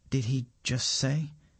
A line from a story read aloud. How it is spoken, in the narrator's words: asks Govinda in a quiet voice